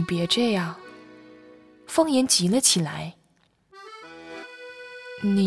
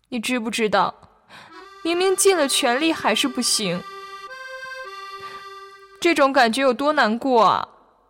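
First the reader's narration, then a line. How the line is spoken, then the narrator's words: Crying. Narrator (Chinese): 云子哭着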